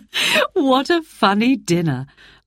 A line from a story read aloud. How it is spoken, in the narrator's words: laughed Mother